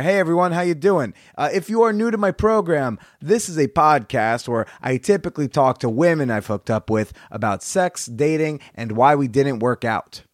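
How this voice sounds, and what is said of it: Rough voice, still recovering. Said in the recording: “my voice is slowly returning back to normal... I do not have that allegedly silky smooth voice... My voice has not.”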